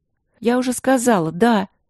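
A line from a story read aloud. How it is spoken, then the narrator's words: Irritated reply. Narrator (Russian): раздраженно отзывалась Пол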